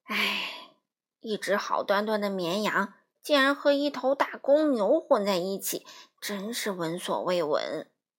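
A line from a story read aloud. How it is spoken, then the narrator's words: Old sheep sighing. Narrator (Chinese): 那些年老的羊儿们不由得又感叹起来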